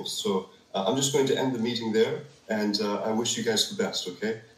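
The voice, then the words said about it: Weird, hard-to-place accent. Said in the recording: “What a weird accent that guy. I can't even pin... It's so weird.”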